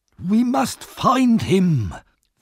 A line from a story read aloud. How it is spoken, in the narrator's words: Fagin said urgently